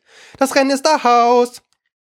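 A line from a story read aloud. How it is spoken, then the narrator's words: Dodo's sudden call. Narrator (German): rief der Dodo plötzlich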